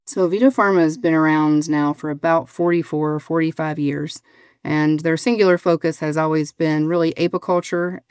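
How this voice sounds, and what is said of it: Southern American accent. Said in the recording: “you sound like you're from the South somewhere ... there's no Colorado accent going on there”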